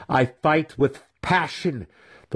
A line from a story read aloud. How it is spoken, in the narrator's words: the weapon master snapped